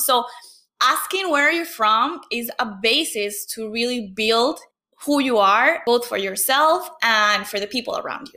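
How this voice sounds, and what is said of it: Venezuelan accent in English. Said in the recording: “someone senses my accent or they like they can feel my accent ... I had to leave Venezuela”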